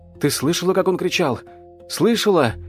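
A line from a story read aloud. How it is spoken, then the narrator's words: Pitiful babbling. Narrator (Russian): жалостливо лепетал Ян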